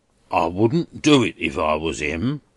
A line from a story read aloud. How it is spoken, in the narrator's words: growled Durdles